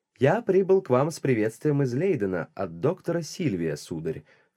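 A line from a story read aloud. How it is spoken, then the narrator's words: Plain. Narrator (Russian): сказал я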